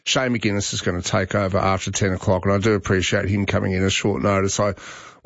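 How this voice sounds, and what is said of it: Sick, sore-throated voice. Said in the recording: “As you can probably hear in my voice, I'm not in good shape today. I've got a terrible cold ... a very sore throat”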